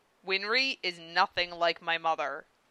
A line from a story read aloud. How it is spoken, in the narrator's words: Jean insisted through gritted teeth